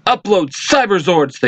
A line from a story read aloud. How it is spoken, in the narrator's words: they shout